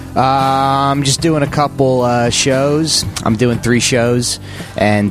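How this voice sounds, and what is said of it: Thick South Jersey/Philly accent. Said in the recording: “That accent. There's no alternative comics that thick. What is that, Brooklyn? ... It's like South Jersey. ... it's like Philly, South Jersey.”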